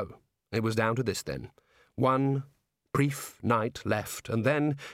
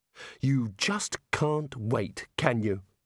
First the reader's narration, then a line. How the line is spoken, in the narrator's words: said Rincewind bitterly